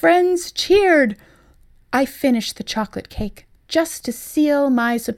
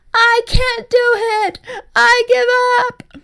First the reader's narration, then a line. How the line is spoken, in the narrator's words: EJ wailed